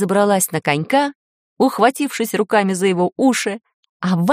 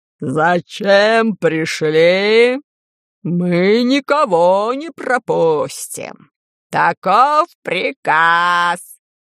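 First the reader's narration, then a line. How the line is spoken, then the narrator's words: Hoarse wheezing chorus. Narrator (Russian): Просипели атланты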